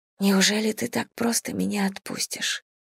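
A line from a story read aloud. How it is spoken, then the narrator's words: Bitter whisper. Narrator (Russian): прошептала горько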